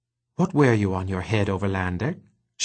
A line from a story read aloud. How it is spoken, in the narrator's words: she asked